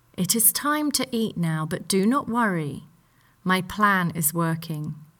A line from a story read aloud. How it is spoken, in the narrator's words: Edmund replied